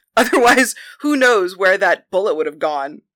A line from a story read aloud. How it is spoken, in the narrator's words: Penthesilea laughed